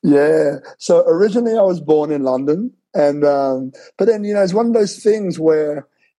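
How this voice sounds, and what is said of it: Slight accent. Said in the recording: “he's got a little bit of an accent.”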